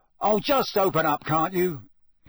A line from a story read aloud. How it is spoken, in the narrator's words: he said angrily